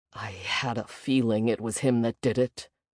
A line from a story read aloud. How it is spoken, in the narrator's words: Jay muttered